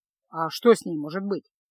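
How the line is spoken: Snorting. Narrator (Russian): фыркнул Кайл

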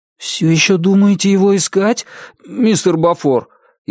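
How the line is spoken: Frightened question. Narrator (Russian): испуганно спросил Билли

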